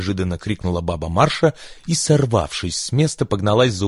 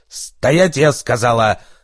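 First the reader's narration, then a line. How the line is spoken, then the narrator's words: Barked, commanding voice. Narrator (Russian): рявкнула своим полковничьим голосом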